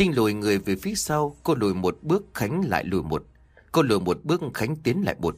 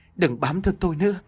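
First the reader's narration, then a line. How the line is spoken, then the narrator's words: Frightened loud shout. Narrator (Vietnamese): sợ hãi, miệng hét lớn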